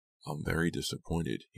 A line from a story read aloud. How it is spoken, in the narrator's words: he murmured